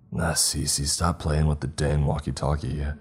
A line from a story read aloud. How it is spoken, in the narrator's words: I grumbled